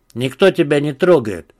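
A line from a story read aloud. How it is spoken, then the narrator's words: Gruff mutter. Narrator (Russian): буркнул камерунец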